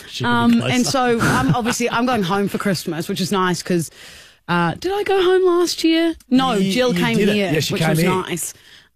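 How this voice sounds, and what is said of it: New Zealand accent. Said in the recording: “I'm from New Zealand, Kia ora, if you didn't tell by the accent.”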